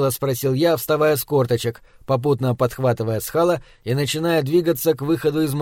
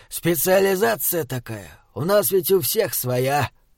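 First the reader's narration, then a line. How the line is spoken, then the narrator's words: Tired drawl. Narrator (Russian): устало протянул Схал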